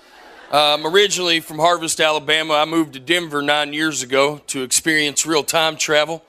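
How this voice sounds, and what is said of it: Southern Alabama accent. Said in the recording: “He's from Alabama ... As you can tell, I'm not originally from around here. I know I sound like a bowl of gravy to y'all.”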